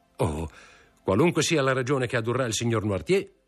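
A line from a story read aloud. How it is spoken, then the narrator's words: Shouted. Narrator (Italian): gridò Morrel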